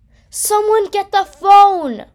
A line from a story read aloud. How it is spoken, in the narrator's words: I yell